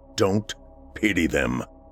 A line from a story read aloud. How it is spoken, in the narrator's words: he said gruffly